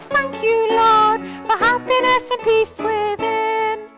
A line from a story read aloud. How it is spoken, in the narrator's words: shout